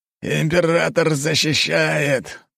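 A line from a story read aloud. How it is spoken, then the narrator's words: Growl. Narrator (Russian): прорычал Семёныч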